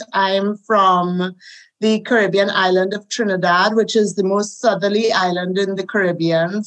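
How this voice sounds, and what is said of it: Caribbean accent. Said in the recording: “as you can hear, I have a Caribbean accent.”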